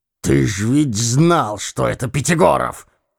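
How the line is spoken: Hoarse half-voice. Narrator (Russian): хрипел Евстрат Спиридоныч в полголоса

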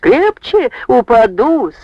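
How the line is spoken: Yelled, laughing. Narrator (Russian): со смехом завопила Варвара

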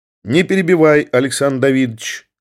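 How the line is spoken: Cold. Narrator (Russian): холодно сказал фон Корен

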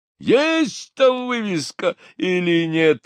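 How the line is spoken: Yelling. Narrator (Russian): орал Булросс

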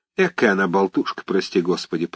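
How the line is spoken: Grumbling. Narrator (Russian): проворчала Марфа Тимофеевна

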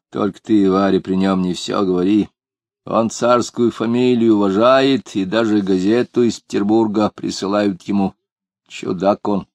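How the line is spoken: Reluctant grumbling warning. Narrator (Russian): неохотно проворчала Анфимьевна и предупредила

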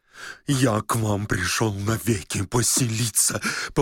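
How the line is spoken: Repeated in lowing voice. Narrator (Russian): повторил Лоханкин коровьим голосом

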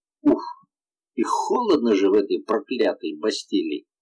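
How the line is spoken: Muttered. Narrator (Russian): пробормотал он

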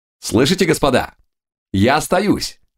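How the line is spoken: Shouted. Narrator (Russian): закричал Юлиус

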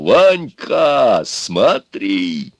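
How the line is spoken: Shout. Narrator (Russian): я крикну

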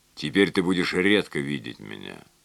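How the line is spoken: Plain. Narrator (Russian): сказал Клерфе

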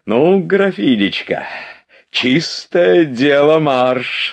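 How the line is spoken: Joyful laughing old uncle. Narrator (Russian): радостно смеясь сказал дядюшка

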